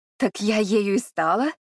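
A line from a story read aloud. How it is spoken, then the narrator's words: Ringing laugh. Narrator (Russian): молодая женщина звонко рассмеялась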